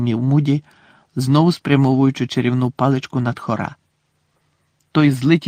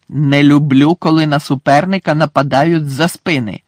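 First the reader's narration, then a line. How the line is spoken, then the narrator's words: Growl. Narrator (Ukrainian): загарчав Муді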